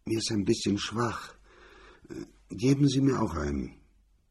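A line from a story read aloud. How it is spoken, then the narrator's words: Husky voice. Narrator (German): Atkinson sagte mit belegter Stimme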